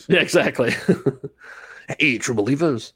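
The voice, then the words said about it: 1950s radio announcer voice. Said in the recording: “your 1950s radio announcer voice”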